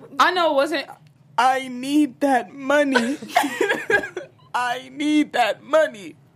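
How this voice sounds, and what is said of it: Imitates a film character's voice. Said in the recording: “Can you do a Queen Latifah set it off impersonation? ... Cleo impersonation ... that's my impersonation”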